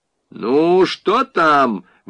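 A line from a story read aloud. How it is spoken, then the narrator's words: Sudden guttural shout. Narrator (Russian): вдруг гортанно крикнул жених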